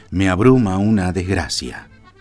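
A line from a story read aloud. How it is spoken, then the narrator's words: Plain. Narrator (Spanish): nos dijo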